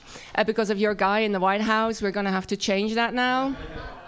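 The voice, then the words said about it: Dutch accent. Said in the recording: “so my accent is Dutch”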